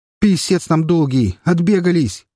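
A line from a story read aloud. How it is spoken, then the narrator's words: Shouted. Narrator (Russian): прокричал Бармалей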